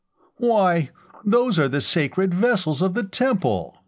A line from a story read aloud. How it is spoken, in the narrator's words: Temendrav cried, scandalized